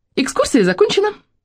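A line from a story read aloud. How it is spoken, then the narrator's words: Squeaky. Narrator (Russian): пропищала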